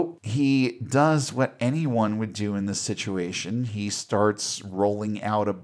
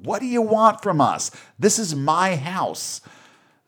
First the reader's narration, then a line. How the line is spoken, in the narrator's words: He is screaming